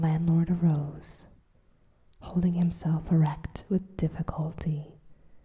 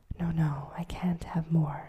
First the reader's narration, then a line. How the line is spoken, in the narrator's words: murmured the guard